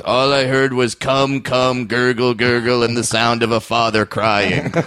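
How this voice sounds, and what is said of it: Imitates another person's voice. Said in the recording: “I'm going to do a horrible Dave Attell impression”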